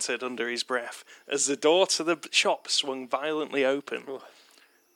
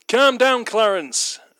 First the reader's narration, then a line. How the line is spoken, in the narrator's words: Alf shouted